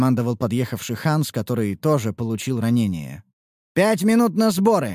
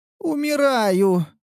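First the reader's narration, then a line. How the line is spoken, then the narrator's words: Moan. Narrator (Russian): простонала Ниуру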